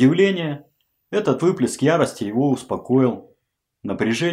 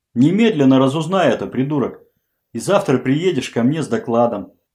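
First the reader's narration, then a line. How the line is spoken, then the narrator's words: Nearly calm. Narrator (Russian): уже почти спокойно закончил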